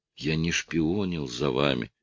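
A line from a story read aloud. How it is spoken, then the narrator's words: Faint hoarse rasp. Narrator (Russian): чуть слышно прохрипел полицейский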